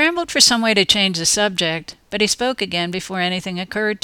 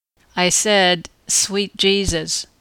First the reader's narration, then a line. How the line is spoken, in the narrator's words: replied